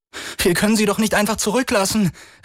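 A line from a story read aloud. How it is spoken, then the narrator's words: Desperate cry. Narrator (German): rief Chris verzweifelt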